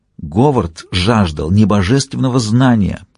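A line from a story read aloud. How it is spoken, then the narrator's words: Near whisper. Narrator (Russian): Ди уже почти шептал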